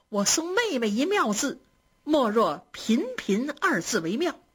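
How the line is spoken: Laughing. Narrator (Chinese): 宝玉笑着说

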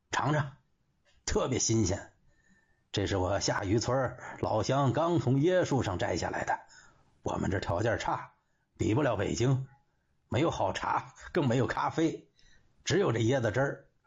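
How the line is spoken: Smiling. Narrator (Chinese): 杜伯良笑着说

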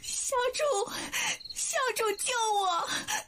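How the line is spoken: Weeping. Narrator (Chinese): 福灵哭泣着说

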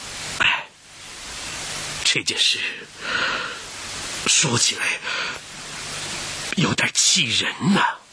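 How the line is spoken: Reluctant, forced out. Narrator (Chinese): 有为难之色，最后他咬了咬牙把这句话说出来了

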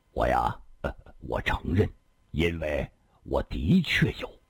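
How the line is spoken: Wry laugh. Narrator (Chinese): 李寻欢苦笑了一声

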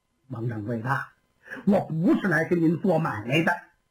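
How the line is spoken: Slight smile. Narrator (Chinese): 田丹微微一笑

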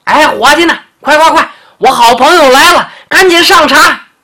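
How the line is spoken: Clamorous shouting. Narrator (Chinese): 长脖鹿开始嚷嚷

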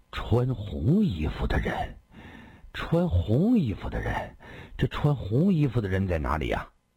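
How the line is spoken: Low, dazed murmur. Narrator (Chinese): 一个人湿淋淋的闯了进来，满布血丝的眼睛呆滞而迟钝，低声说道

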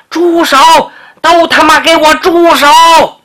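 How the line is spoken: Shouting. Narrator (Chinese): 旁边有人喊了

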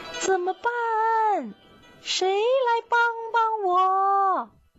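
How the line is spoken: Loud shout. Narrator (Chinese): 他望着天空，大声地喊道

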